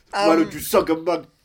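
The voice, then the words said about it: Imitates a stand-up comedian's voice. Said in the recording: “my impression of Andrew Dice Clay live at the Madison Square Gardens”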